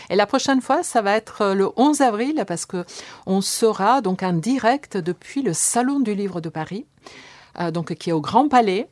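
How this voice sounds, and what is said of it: Slight Italian accent. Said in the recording (French): “j'ai toujours un peu un accent italien”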